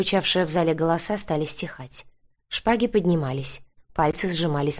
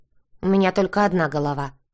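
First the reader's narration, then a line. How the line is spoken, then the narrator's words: Snorted. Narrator (Russian): фыркнул Вьер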